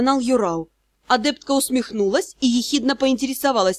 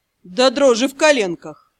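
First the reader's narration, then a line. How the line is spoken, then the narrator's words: Grim reply. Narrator (Russian): мрачно ответил Дроу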